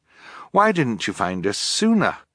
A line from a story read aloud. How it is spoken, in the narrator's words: Fiona sighed